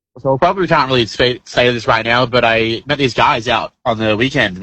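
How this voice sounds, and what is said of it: Confusing, very Australian-sounding accent. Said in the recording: “It sounds very Australian at the moment... that is one of the most confusing accents I've ever heard”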